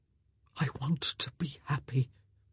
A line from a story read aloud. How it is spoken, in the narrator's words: he whispered